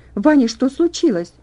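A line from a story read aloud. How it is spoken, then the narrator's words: Very loud exclamation. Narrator (Russian): воскликнула она так громко, что проснулись другие больные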